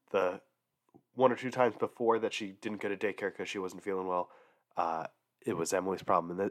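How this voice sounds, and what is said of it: Sick-sounding voice. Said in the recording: “She's been sick this week, and you can probably tell by my voice, it got me.”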